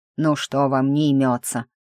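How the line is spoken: Grumbling. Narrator (Russian): проворчал

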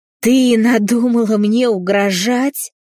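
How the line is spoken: Roar like wounded bison. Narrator (Russian): взревел раненым бизоном отец

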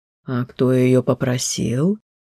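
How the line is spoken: Soft teasing question. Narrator (Russian): Мягко и немного насмешливо переспросил Амирен

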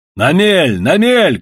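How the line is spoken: Shout. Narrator (Russian): крикнул Иван

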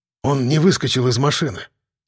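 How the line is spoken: Sighing mutter. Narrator (Russian): со вздохом пробормотал Гужевой

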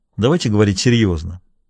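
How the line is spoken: Dry. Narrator (Russian): сказал он сухо

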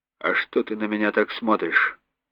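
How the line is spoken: Quiet menacing. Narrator (Russian): Тихо, угрожающе произнес Горин

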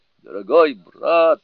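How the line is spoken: Pleading. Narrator (Russian): взмолился Джубадзе

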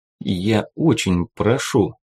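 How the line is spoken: Plain. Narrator (Russian): сказал Симмонс

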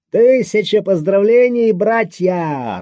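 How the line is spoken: Joyful shout. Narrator (Russian): радостным голосом выкрикнул Обнорский

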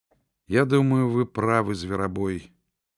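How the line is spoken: Sad young woman's voice. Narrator (Russian): печальным голосом сказала девушка

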